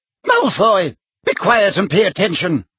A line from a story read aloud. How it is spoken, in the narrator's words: barked Professor McGonagall